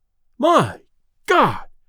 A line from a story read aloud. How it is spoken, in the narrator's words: exclaimed Delaney as he fell back